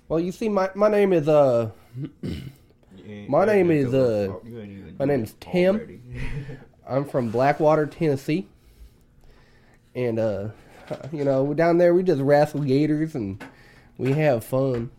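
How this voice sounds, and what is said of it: Weak put-on Southern country accent. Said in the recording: “All I really got in me is like a southern accent. I can talk country anytime I want ... talk country ... That just sounds like normal ... to me ... It kind of does”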